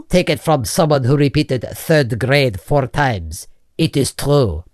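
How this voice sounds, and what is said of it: Strange accent. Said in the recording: “that's a strange accent.”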